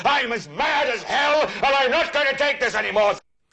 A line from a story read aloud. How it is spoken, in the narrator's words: yell